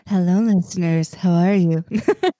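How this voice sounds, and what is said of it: Late-night radio host voice. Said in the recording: “I couldn't help but turn on the midnight radio voice.”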